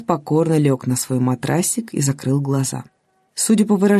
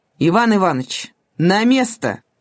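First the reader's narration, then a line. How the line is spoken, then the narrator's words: Shout. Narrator (Russian): он крикнул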